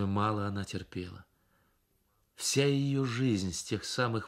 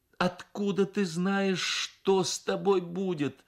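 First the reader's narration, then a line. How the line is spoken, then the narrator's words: Said, then sobbing. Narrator (Russian): сказала мать и разрыдалась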